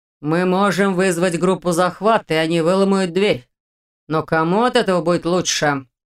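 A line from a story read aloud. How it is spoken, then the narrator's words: Menacing. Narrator (Russian): Грозно добавил Дементьев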